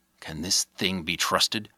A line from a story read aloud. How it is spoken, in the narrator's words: He whispered